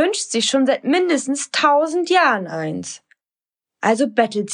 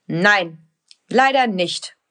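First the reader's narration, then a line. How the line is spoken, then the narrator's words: Stern father. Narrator (German): sagt ihr Papa, der manchmal ziemlich streng sein kann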